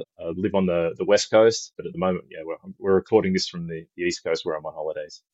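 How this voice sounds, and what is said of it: Australian accent. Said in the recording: “As you can probably tell from the accent, I'm from Australia.”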